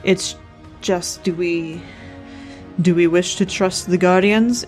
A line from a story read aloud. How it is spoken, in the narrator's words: Illyn filled in dryly